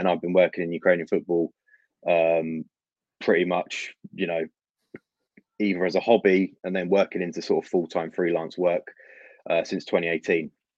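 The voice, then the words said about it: London English accent. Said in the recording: “by my accent, you can tell I'm not born in Ukraine, but I am born and raised in London”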